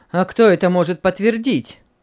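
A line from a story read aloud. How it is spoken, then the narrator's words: Cold, young priest. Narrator (Russian): холодно заметил молодой священник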